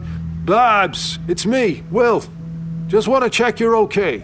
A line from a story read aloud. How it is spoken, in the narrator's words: called out